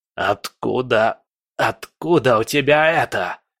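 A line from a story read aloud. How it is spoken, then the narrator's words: Terrified hoarse rasp. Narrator (Russian): прохрипел Легба в ужасе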